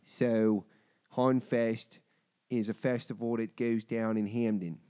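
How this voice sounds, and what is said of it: Put-on Baltimore accent. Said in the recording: “I'm gonna do my Baltimore accent for everybody real quick.”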